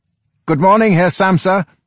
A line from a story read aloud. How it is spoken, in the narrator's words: the general manager now cried out in a friendly tone